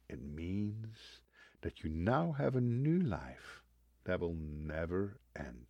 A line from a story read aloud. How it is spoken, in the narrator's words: gently leaned forward in his chair to get closer to me and said